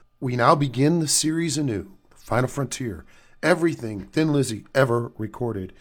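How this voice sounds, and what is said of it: Stuffy, sick-sounding voice. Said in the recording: “Excuse my voice. ... I'm suffering from a little bit of a cold.”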